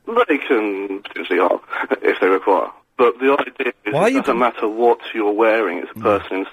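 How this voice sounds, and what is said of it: Posh English accent. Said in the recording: “Why are you pretending to talk posh? ... You talk posh now.”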